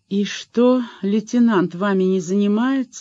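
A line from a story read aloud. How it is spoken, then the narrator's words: Sleepy surprise. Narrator (Russian): сонно удивилась Марина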